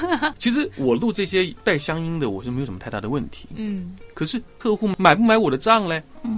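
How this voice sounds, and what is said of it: Usual voice. Nothing is said of it.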